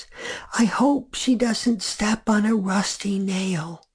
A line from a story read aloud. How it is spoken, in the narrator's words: Lisa said, her voice as soft as our father's